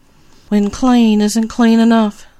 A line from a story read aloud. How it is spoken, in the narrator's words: she moaned